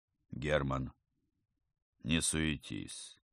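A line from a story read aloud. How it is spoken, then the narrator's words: Lazy reply. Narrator (Russian): как-то лениво ответил ему Равнин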